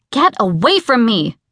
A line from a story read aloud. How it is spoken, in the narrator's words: I had snapped at Dom